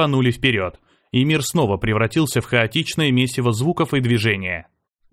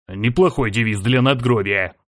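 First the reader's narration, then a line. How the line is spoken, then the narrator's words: Grumbling. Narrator (Russian): проворчал Серж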